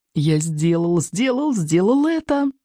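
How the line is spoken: Joyful inner singing. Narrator (Russian): радостно запел про себя Икинг

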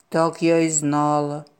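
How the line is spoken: Sigh. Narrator (Russian): вздохнула корова

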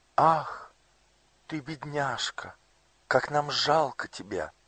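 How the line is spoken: Exclaimed in unison. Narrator (Russian): В один голос воскликнули принц и принцесса

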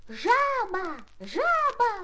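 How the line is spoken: Silly-voiced shout. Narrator (Russian): закричал он очень глупым голосом

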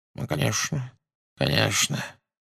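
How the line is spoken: Unsurprised mumbling. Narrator (Russian): бормотал он без малейшего удивления

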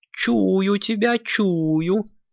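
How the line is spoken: Touched old woman drawling. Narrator (Russian): растроганно протянула баба-яга

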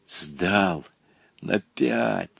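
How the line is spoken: Whispered. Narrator (Russian): шепотом сообщил Волька своему приятелю

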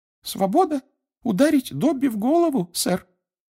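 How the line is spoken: Sad. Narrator (Russian): печально сказала Винки

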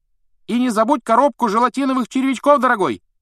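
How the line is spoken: Woman's shout after someone. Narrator (Russian): крикнул кому-то вдогонку женский голос

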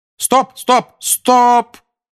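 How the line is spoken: Shout. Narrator (Russian): крикнула Анжелина

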